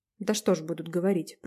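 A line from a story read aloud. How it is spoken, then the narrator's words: Timid. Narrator (Russian): промолвила Таня робко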